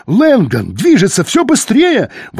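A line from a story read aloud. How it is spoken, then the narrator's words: Excited yelling. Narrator (Russian): возбужденно орал Калле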